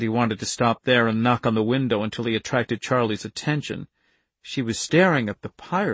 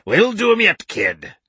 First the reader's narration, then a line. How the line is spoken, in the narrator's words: the one-eyed pirate cried hoarsely